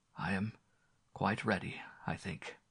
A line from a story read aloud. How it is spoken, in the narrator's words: he said in a low tone